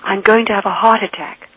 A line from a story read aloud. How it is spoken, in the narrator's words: she cried out